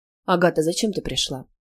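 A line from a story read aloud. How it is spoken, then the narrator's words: Question with heavy sigh. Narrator (Russian): спросил, тяжело вздохнув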